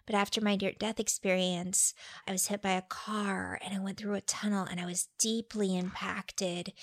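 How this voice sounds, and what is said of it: Imitates another person's voice. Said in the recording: “Really good impersonation,”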